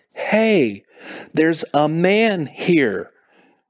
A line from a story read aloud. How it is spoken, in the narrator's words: Rachel said, almost shouting in a slow, deliberate manner